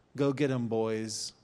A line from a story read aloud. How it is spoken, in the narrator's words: he says